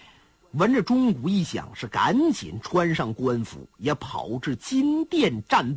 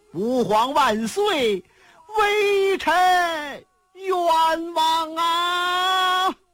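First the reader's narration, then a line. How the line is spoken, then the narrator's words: Crying. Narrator (Chinese): 哭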